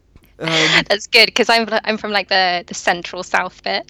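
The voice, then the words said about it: Posh British accent. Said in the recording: “your British accent ... I've got like a very posh accent”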